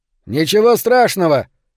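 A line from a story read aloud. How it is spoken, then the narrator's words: Shouting again. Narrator (Russian): снова прокричал Беннет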